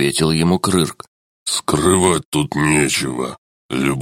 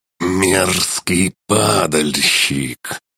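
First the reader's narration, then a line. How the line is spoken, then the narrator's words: Hissing. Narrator (Russian): прошипел он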